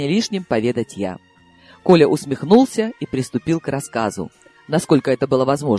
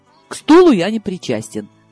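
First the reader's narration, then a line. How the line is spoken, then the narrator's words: Hasty exclamation. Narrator (Russian): поспешно воскликнул он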